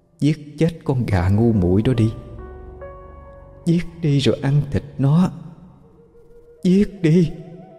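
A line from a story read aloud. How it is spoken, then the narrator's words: Whispering voice. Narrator (Vietnamese): Tiếng nói đó vẫn thì thầm bên tai bà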